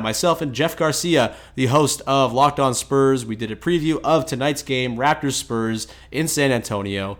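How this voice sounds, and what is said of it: Sick, strained voice, rushed delivery. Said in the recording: “I'm rushing through this intro... my voice is about to explode. I'm sick”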